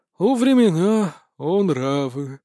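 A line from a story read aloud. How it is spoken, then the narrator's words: Sighing. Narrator (Russian): вздохнул Анубис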